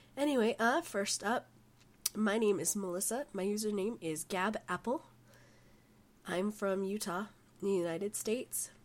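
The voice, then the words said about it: Sick, rough-sounding voice. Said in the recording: “I've been sick for the past 3 weeks and I sound really terrible.”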